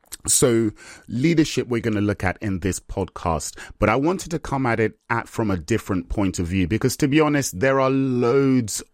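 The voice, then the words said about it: Slightly nasal, congested voice. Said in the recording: “my voice is a little bit kind of nasal, it's because I get hay fever, and this is my hay fever season ... it sounds a little bit nasal in my voice today”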